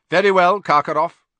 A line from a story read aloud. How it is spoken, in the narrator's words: Crouch said coldly